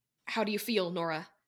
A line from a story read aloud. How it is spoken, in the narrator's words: Cam asked anxiously